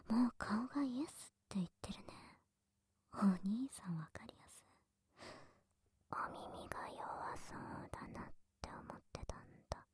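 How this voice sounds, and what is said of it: Whispering. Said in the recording (Japanese): “ほら、こうやってささやかれながら”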